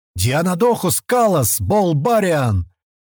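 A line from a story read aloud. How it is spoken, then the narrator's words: Rough man's shout. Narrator (Russian): крикнул грубый Диан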